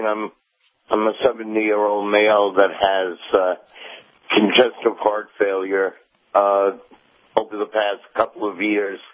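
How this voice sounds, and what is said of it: Rough, hoarse sick voice. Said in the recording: “I have a little bronchitis, so my voice is a little bad”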